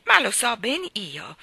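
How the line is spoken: Plain. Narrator (Italian): disse Mrs

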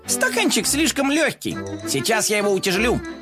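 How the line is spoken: Exclaimed. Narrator (Russian): воскликнул коржик

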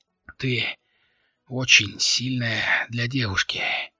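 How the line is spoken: Strained, forced words. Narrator (Russian): выдавил Алири

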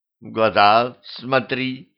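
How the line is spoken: Growled. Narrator (Russian): рыкнула

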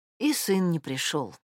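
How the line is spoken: Quiet remark. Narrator (Russian): тихо заметила Олеся Михайловна

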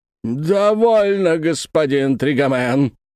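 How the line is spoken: Menacing shout. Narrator (Russian): грозно закричал дядюшка Антифер

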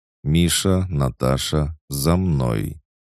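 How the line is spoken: Calm but powerful. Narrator (Russian): Людмила говорила спокойно, но каждый в зале чувствовал ее невероятную мощь

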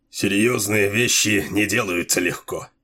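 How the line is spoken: Grumbling. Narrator (Russian): проворчал Делуло

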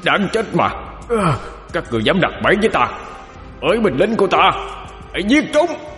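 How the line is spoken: Pained feral roar. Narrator (Vietnamese): Hắn đào đớn gào lên như một con thú hoang

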